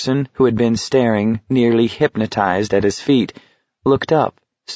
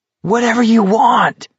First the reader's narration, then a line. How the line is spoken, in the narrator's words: Garrity yelled